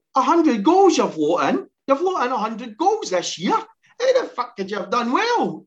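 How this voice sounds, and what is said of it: Put-on Fife Scottish accent. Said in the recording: “with that Fife accent, I'm not going to put one. Well, I'm going to put one on, right? But it's not a Welsh accent, it's a Fife one.”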